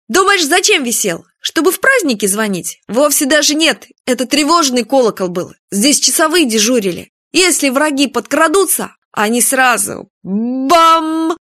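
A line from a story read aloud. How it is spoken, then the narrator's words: Loud voice. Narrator (Russian): Он повторил громким голосом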